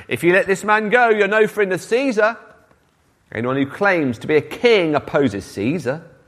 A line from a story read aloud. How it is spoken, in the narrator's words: the Jewish leaders kept shouting